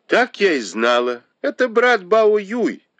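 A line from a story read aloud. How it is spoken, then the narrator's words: Exclaimed. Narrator (Russian): воскликнула Тань Чунь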